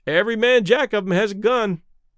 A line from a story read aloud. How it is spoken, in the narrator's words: one of the sailors remarked cheerfully